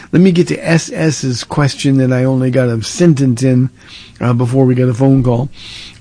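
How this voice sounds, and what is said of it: Strained, failing voice. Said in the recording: “my voice is going down by the moment”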